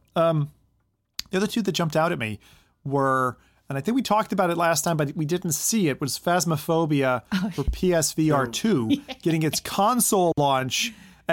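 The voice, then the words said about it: Hoarse, strained voice. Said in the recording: “I'm losing my voice here a little bit.”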